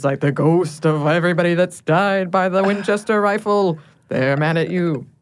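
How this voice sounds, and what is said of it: Dramatic ghoulish put-on accent. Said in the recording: “I love the accent that you gave to that. To make sure we had the drama. ... It was very ghoulish.”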